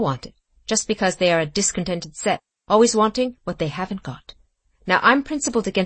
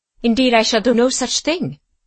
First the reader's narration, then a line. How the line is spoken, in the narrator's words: said Marie sharply